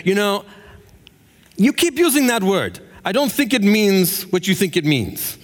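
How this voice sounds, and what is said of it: Put-on Spanish accent. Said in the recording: “my best Spanish impression”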